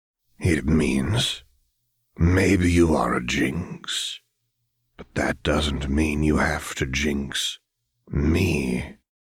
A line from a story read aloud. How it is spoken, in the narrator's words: Silco said, his smile growing faintly predatory